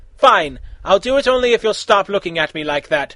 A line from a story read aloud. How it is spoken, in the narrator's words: Raven said quickly